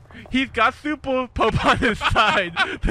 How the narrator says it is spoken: the commander screams

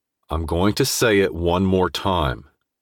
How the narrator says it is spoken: I said through clenched teeth, jaw twitching

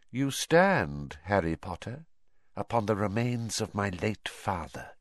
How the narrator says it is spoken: he hissed softly

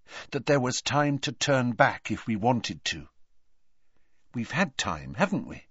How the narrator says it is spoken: said Hermione quietly

